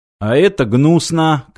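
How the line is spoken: Shouted. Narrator (Russian): крикнул Мартин

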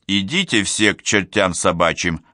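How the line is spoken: Unfriendly tone. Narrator (Russian): ответил укус своим обычным недружелюбным тоном

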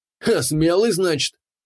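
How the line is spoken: Mocking chuckle. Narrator (Russian): хохотнул вымогатель

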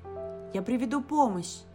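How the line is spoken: Shout. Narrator (Russian): крикнула Шу

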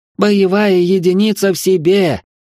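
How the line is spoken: Howled, female cousin. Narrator (Russian): взвыла кузина

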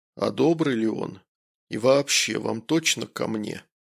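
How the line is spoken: Surprised, suspicious doctor. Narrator (Russian): Врач, удивленно, подозрительным тоном произнес

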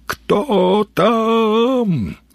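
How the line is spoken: Yelling. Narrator (Russian): заорал в темноту сталкер

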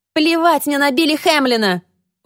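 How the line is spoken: Shrill squeal. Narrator (Russian): взвизгнула Люси

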